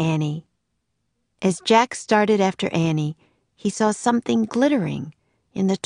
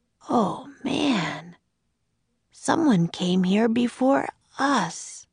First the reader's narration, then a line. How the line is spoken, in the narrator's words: Jack said softly